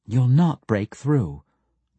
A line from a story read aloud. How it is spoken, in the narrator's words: the priestess said again, her tone matter-of-fact and in no way insulting